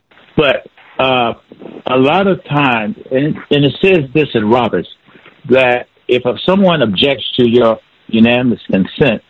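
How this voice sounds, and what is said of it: Voice slightly off from a cold. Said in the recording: “I have a little teeny bit of a cold. Maybe that's why my voice sounds different.”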